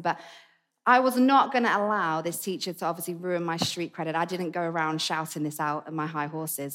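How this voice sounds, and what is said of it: Essex English accent. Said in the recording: “my accent, that's where it's from. It's an Essex accent.”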